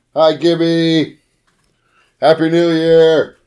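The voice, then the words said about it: Yelling loudly. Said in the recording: “I'm yelling at him ... You're yelling at him like an old person trying to use the phone for the first time”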